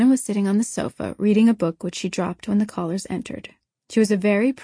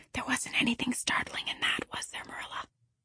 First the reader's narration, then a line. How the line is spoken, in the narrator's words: said Anne gravely, then aside to Marilla in an audible whisper